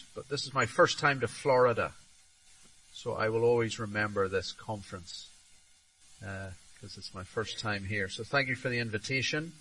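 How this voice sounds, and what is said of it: Northern Irish accent. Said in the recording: “As you can hear from the accent, I'm not from around here. ... From Northern Ireland originally”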